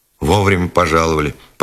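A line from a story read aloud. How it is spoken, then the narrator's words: Grumbling. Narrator (Russian): проворчал коренастый бог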